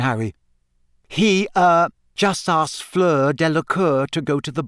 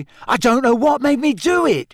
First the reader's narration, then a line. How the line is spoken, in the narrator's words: Ron gasped again